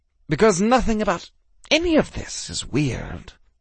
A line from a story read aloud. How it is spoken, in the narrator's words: Justin muttered